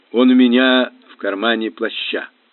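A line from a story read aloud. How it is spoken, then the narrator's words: Mumble. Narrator (Russian): пробормотал мистер Паучер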